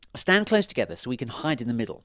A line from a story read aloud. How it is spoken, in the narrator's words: she said